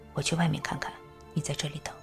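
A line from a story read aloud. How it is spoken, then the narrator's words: Low voice. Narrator (Chinese): 他低声说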